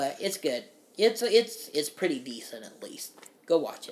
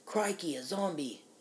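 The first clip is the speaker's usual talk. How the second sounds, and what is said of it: Put-on Australian accent. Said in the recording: “Australian accent.”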